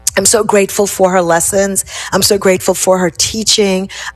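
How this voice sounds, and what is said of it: Choked-up, emotional voice. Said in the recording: “Got a little choked up there.”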